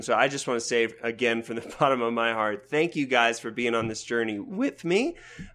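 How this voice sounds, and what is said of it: Voice recovering from a cold. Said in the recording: “You can hear in my voice, I'm a little verklempt right now. I'm getting over cold this week”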